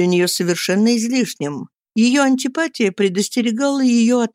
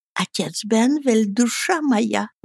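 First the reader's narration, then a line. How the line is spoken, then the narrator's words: Whispered introduction. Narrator (Russian): Представление, сделанное шепотом леди Лоринг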